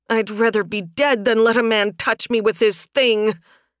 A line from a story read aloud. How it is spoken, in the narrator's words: Sunstorm growled